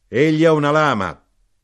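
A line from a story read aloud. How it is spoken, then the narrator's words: Knife grinder shouting. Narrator (Italian): l'arrotino gridò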